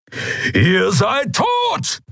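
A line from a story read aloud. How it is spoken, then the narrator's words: Thundering. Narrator (German): donnerte Keru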